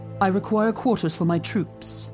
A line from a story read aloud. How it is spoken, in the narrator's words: she said